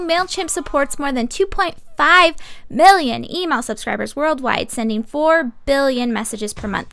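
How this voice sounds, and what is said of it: Announcer voice. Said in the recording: “Got my announcer voice on.”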